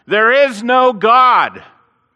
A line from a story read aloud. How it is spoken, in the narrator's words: he started shouting out